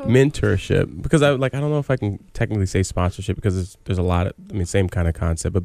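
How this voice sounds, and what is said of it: Deep, soothing radio voice. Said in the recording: “radio voice ... soothing ... I feel like we should be on at like 1 a.m. ... Barry White”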